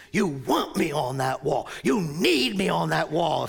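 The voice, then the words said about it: Imitates another person's voice. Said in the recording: “I don't do a great Nicholson impersonation”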